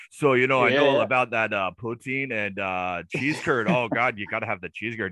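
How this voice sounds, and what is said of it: Put-on Canadian accent. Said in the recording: “I can throw in that Canadian accent”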